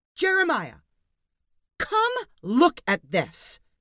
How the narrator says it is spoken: yelled Sandy

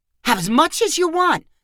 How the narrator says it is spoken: Connor said cheerfully

